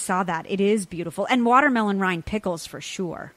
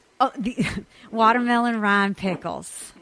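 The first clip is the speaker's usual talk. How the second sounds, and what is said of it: Put-on Southern accent. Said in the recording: “That you have to say with a southern accent. ... That was very good. Wow.”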